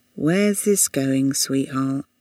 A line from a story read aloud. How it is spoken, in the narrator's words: sighed